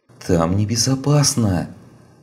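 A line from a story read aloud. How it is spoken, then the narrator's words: Pleading. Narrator (Russian): умоляющим тоном продолжил Чиань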